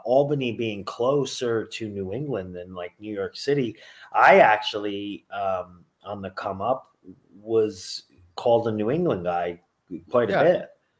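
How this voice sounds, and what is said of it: Nasal upstate New York accent. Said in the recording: “the nasally upstate New York accent”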